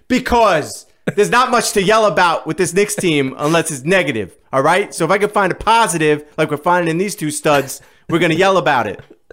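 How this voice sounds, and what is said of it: Yelling, loud excited voice. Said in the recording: “Why are you yelling?”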